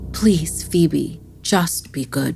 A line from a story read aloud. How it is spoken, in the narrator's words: her mother simply sighed and said